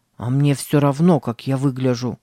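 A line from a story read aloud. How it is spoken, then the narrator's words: Muttering. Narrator (Russian): пробурчал Сэм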